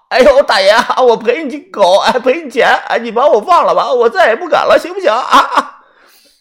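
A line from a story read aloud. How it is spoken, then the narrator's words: Crying, pleading. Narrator (Chinese): 这个人哭着说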